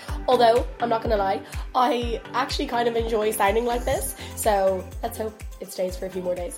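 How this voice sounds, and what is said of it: Hoarse, partly lost voice. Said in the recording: “I have somewhat lost my voice.”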